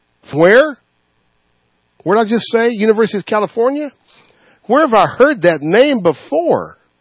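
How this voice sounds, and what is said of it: Sarcastic, mock-puzzled tone. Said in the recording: “know I'm being sarcastic”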